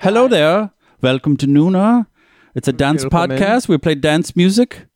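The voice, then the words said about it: Unidentifiable put-on accent. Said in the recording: “Whatever accent you're doing. ... No one knows.”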